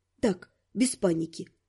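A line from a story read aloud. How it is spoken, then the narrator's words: Announcing after deep breath. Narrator (Russian): Я глубоко вздохнула и сообщила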